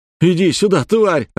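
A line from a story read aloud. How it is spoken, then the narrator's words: Shouting. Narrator (Russian): орал Вадик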